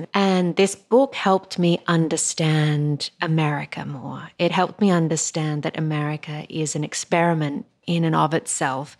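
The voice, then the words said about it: Australian accent. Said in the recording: “As you guys can hear, I have an Australian accent”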